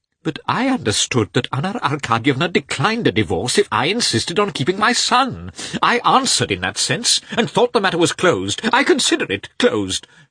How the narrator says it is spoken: shrieked Karenin

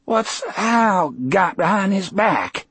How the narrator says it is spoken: Percy asked in a ragged voice

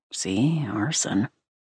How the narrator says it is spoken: under his breath

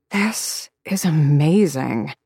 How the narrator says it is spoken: Aisling murmured around her own spoon

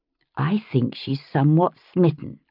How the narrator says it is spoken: I said, lowering my voice

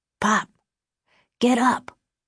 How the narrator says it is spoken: the kid whispered

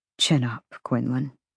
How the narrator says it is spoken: he murmured against her soft skin

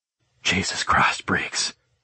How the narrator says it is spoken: I breathed out, just as overwhelmed from her truth

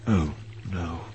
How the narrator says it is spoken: Kenobi breathed

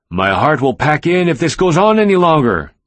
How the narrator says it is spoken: my father-in-law shouted at Young-ye

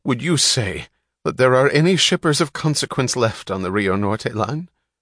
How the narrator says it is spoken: asked the man with the quavering voice

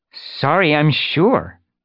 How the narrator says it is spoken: she spat

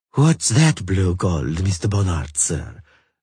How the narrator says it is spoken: the Marchioness de Nemeth Oivar asked huskily and sensuously

